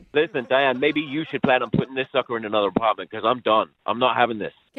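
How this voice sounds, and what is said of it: Speaks with a noticeable accent. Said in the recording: “I thought your accent was charming early on, but now, kind of annoying ... my accent's annoying”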